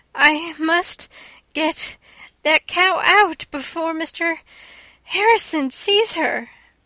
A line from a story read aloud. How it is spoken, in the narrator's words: gasped Anne